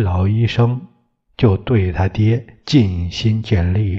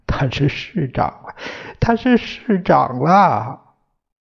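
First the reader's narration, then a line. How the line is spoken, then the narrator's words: Crying and shouting. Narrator (Chinese): 他嫂子哭着喊着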